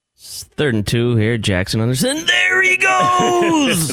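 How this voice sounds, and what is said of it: Al Michaels impression. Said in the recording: “his Al Michaels impersonation”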